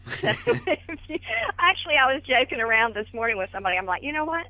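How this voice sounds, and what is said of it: Southern American accent. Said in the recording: “I talk Southern.”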